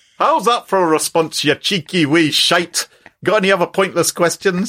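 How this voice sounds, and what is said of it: Put-on Glaswegian accent. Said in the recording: “quite an interesting Glaswegian accent ... Could you freelance a Glaswegian accent for us?”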